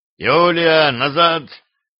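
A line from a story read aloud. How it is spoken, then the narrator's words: Menacing growl. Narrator (Russian): грозно рыкнул на женщину боярин Варлам Батов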